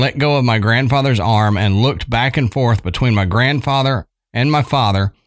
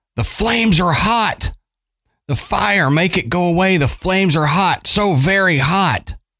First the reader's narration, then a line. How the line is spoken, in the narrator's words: the man's eyes opened wide and he grabbed my grandfather's arm and screamed